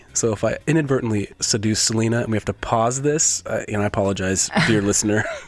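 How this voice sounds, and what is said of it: Stuffy, congested voice. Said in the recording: “I'm a little stuffy at the moment... I definitely have a head cold or something... my voice is a little bit more sultry”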